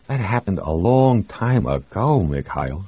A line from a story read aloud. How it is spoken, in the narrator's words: said Jamie